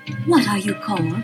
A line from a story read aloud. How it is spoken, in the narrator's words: she asked